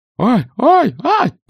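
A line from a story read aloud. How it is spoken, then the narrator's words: Continued squealing. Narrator (Russian): продолжал визжать Ригельд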